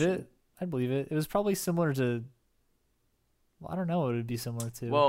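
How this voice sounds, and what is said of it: Usual voice. Nothing is said of it.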